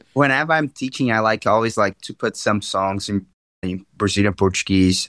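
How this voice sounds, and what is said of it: Brazilian Portuguese accent. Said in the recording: “my accent. ... Right. I can hear it.”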